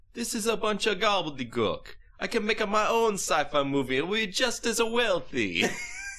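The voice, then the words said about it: Impression of director Luigi Cozzi. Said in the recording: “I imagine that's what he sounds like. I'm sure that impression is spot on.”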